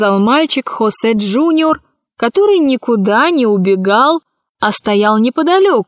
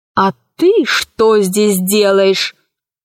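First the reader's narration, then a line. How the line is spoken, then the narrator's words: Menacing question. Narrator (Russian): грозно спросила Кора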